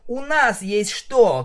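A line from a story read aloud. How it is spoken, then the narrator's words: Shout. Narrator (Russian): крикнула я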